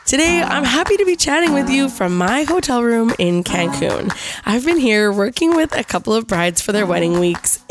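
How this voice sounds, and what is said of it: Raspy, slightly sick voice. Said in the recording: “you're gonna have to excuse my raspy voice. I'm a little bit run down and a little bit sick.”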